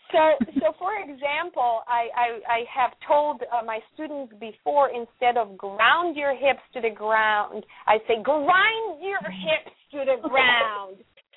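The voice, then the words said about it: Non-native English accent. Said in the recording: “English is not my first language, so as you can hear by my accent.”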